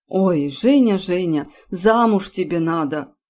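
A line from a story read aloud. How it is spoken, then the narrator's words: Sighing aunt. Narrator (Russian): вздохнула тетя Мила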